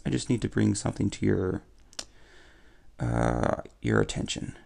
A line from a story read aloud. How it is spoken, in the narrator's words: Rico says, his voice uneven, timid